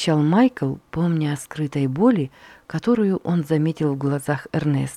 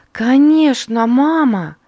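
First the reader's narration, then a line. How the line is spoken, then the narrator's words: Exclaimed. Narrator (Russian): воскликнула Катрина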